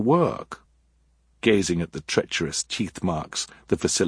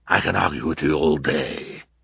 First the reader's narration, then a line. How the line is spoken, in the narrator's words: the villain growled